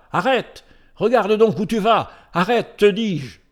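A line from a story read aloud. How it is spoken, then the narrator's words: Shouting. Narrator (French): Ben-Hur criant en s'adressant à Messala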